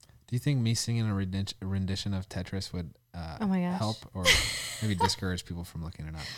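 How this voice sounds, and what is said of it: Usual voice. Nothing is said of it.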